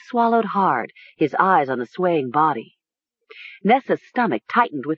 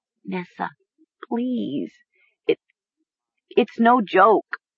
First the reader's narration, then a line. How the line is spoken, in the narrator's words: Mara stammered